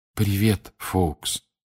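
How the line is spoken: Soft whisper. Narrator (Russian): тихо прошептал Гарри

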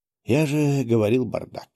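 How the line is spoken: Sighed. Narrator (Russian): вздохнул я

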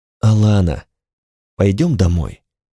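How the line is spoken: Soft, gentle. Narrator (Russian): сказал мягко

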